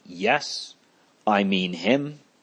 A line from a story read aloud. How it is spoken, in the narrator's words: Ignatius answers calmly